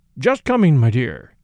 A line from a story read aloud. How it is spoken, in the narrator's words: I said hastily